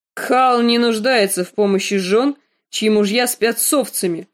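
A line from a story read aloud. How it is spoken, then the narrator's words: Barking harshly. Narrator (Russian): рявкнул Квота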